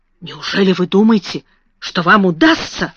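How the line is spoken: Whispered. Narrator (Russian): прошептала она

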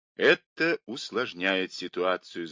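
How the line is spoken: Thoughtful. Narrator (Russian): задумчиво сказал Мейсон

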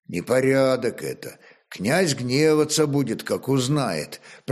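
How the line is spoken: Quiet youth. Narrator (Russian): проговорил негромко отрок

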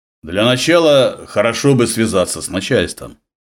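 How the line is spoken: Rich deep bass. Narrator (Russian): Владимир говорил густым, насыщенным басом

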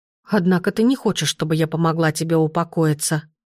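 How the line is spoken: Mutter. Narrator (Russian): пробормотала я

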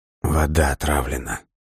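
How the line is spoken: Barely audible. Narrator (Russian): еле слышно произнес Лесков

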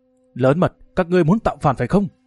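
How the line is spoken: Loud shout. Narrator (Vietnamese): Mấy tên thiên hộ kỵ doanh quát lớn

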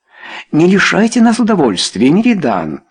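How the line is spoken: Regretful exclamation. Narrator (Russian): снова воскликнул кто-то с сожалением

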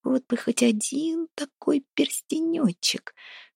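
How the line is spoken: Whining whisper. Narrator (Russian): шепотом ныл за левым плечом Харапун

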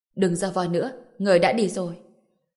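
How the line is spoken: Cold, blood-filled mouth. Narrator (Vietnamese): mồm miệng còn đang dì máu, lạnh lùng nói một tiếng

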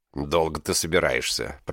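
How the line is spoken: Grumbling. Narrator (Russian): проворчал Паршурам

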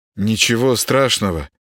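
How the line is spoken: Uncertain reply. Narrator (Russian): неуверенно ответил Володаров

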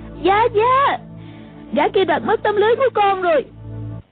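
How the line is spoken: Crying out. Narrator (Vietnamese): A Tử kêu lên

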